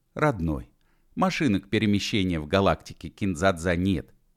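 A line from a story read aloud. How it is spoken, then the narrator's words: Gentle. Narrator (Russian): мягко сказал Бородатый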